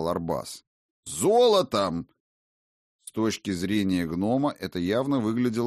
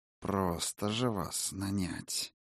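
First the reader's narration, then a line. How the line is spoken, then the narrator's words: Through gritted teeth. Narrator (Russian): процедила сквозь зубы Гилера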